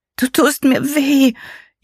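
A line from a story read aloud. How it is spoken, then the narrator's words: Tearful whining. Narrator (German): jammerte Poppy, und ihr kamen die Tränen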